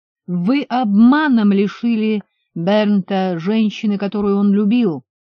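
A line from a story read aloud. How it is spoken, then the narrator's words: Yelled. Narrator (Russian): заорал Хоу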